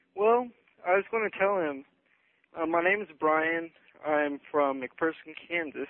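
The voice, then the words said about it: Out of breath caller. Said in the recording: “I'm kind of out of breath because I've been running around”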